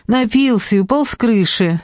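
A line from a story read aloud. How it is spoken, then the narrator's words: Laughing. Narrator (Russian): Нелли рассмеялась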